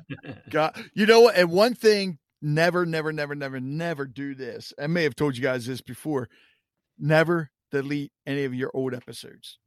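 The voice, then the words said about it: Baltimore accent. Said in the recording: “I'm still hearing from everybody that I got the Baltimore accent”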